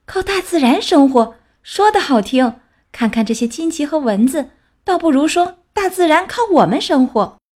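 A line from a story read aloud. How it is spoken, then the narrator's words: Shouting while running. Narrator (Chinese): 熊妈妈边跑边喊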